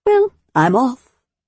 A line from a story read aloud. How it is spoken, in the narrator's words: she said brightly